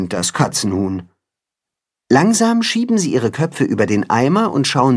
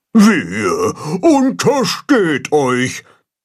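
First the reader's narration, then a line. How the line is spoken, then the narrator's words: Shouted. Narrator (German): ruft Baldrian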